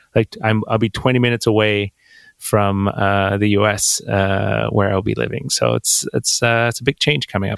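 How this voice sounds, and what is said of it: Quebec-influenced English accent. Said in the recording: “I'm born and raised Quebec. So I went to French school most of my life, and which is why I have this weird accent ... where's that accent from? Is it Canadian? Is it French?”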